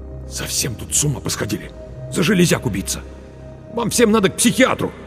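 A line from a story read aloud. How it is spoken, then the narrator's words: Through gritted teeth. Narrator (Russian): Марк процедил сквозь зубы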